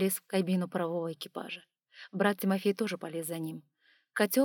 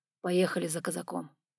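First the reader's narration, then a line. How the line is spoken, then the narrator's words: Ambiguous, glad or questioning. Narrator (Russian): произнес резидент, и сразу было не понять, он радуется или спрашивает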